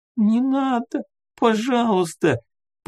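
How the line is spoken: Squeaky trembling plaintive voice. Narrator (Russian): пропищала она дрожащим жалобным голоском

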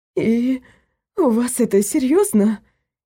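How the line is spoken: Hoarse, shaken voice. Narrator (Russian): севшим голосом проговорила Люсьена

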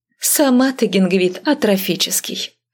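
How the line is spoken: Snorting. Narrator (Russian): фыркнула

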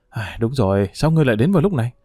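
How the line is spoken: Sighing. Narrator (Vietnamese): Triệu Nhan thở dài nói

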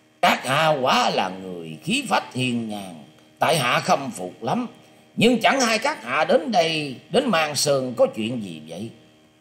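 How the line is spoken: Hearty loud laughter. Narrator (Vietnamese): Người ấy cười to ha hả nói

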